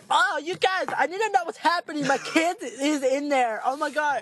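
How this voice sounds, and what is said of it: Exaggerated frantic woman's voice. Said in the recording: “Why do you sound like your mom? ... Your black lady impression sounds like dumb white girl.”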